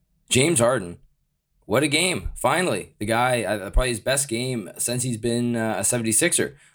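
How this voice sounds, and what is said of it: Deep, congested voice. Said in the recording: “I've got a bit of a cold right now, so hopefully you enjoy the nice deep tones that I'm delivering here”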